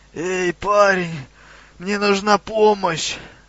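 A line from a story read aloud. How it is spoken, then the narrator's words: Creature's moan. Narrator (Russian): простонало неизвестное создание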